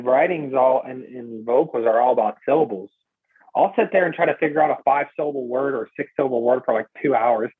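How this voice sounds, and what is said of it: Pittsburgh accent. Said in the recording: “I definitely have a Pittsburgh accent.”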